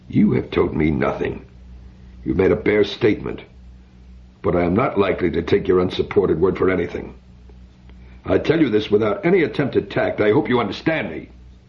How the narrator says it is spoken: Biren said sharply

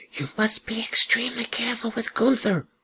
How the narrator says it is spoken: the Dala horse whispered

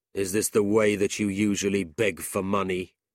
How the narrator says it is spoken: coldly replied

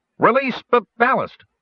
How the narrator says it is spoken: Stutz called out

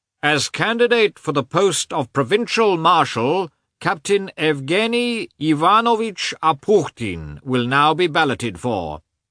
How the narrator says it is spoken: a man in uniform who announced in a loud, shrill voice

